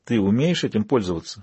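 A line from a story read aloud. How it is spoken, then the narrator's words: Whispered. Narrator (Russian): шепнула она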